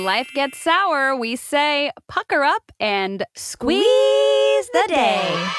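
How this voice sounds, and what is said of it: Smooth radio host voice. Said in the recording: “great radio voice ... It was kind really of good. Like Delilah. A little Delilah? ... Very Delilah”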